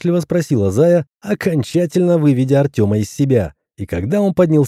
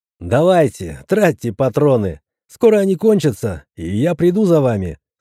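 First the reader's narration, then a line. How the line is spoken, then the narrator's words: Mocking laughter. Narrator (Russian): снова рассмеялся самозванный Зевс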